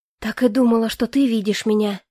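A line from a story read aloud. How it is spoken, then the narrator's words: Breathed out. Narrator (Russian): выдохнула я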